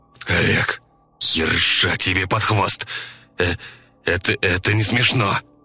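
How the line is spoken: Stammering, forced out. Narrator (Russian): заикнувшись, выдавил санитар

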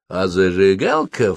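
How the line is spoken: Insinuating, ingratiating. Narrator (Russian): вкрадчиво добавил он

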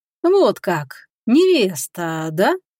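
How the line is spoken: Drawl. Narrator (Russian): протянул Горват

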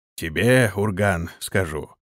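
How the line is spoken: Calm. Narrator (Russian): спокойно произнес Бей

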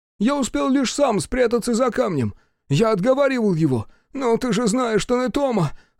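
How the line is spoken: Moaning. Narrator (Russian): стонал Фоя

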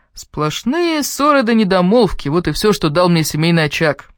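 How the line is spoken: Cheerful. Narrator (Russian): весело отозвался Квентин

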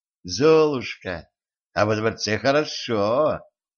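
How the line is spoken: Sugary sweet voice. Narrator (Russian): сладким голосом сказала она

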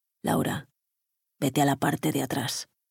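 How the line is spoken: Muttered through teeth. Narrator (Spanish): murmuró Mijail entre dientes

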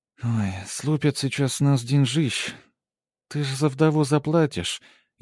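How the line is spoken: Sugary drawl. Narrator (Russian): елейно протянула сестрица

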